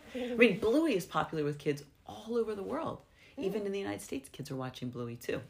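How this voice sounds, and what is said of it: American accent. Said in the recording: “you can hear I have an American accent”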